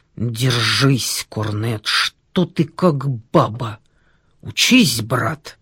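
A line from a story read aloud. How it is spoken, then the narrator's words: Menacing hiss. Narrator (Russian): Топорков страшным голосом прошипел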